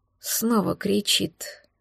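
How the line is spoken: Muffled, hollow. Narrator (Russian): глухо произнес он

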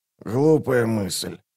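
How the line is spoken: Hoarse rasp. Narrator (Russian): прохрипел Раллик

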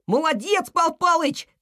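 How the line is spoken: Shout. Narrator (Russian): крикнул Снеж

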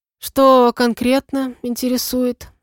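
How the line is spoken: Sleepy question. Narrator (Russian): сонным голосом спросил он

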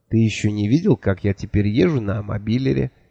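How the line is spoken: Quiet. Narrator (Russian): тихо сказала Миламари

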